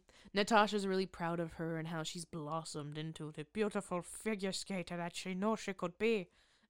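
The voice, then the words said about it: Mixed Irish-Scottish-Russian put-on accent. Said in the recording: “was that supposed to be an Irish accent, a Scottish accent, a Russian accent? ... Supposed to be all of it, the above”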